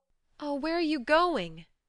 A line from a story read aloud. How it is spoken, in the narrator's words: she cried, for his face frightened her